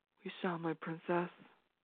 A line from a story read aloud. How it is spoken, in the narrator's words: he whispered